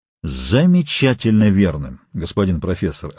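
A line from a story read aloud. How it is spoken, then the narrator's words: Plain. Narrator (Russian): ответил канадец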